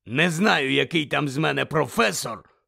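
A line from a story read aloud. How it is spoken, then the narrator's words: Growled. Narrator (Ukrainian): прогарчав голос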